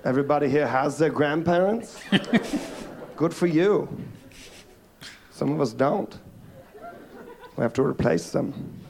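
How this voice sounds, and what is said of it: Southern US accent. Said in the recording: “I'm from South Carolina. You can tell by my accent”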